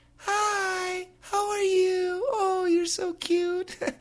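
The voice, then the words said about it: High little girl's voice. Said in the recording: “my voice sounds like a little girl's voice”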